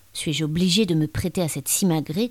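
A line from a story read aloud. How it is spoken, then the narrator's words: Grumbled. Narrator (French): grogna-t-il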